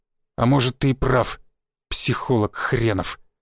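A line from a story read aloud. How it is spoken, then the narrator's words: Forced out, strained. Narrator (Russian): выдавил Шишаков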